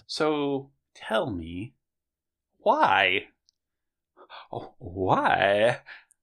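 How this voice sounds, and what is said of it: Christopher Walken impression. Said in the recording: “That's my Christopher Walken in Lord of the Rings trilogy impersonation.”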